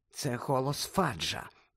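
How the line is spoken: Whisper. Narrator (Ukrainian): прошепотіла

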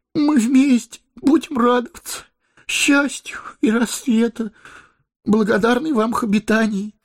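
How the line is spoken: Sobbing. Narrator (Russian): проговорил хоббит, всхлипывая

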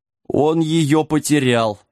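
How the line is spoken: Moan while fainting. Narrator (Russian): простонал Сэм, падая в обморок

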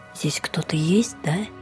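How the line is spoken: Whisper. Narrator (Russian): прошептала она

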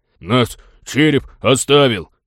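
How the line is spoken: Fearless deep voice, small mouse. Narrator (Russian): с бесстрашием честного человека пробасил мышонок

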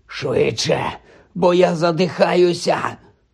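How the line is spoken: Wheezed. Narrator (Ukrainian): прохрипів Гаррі, відбиваючись від пагона, який закручився навколо його грудей

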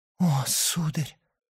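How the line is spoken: Whisper. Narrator (Russian): прошептала она

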